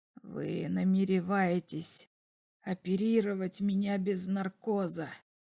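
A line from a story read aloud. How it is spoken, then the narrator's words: Whisper, old man. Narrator (Russian): прошептал старик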